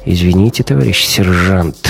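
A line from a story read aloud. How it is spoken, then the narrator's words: Sighing. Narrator (Russian): вздохнул Гумилев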